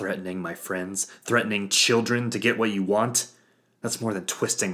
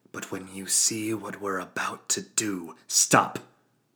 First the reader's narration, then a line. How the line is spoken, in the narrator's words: I growled